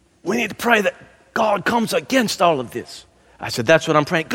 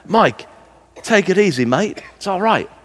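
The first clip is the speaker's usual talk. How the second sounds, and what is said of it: Botched Australian accent. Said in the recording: “Australian ... as I botch your accent”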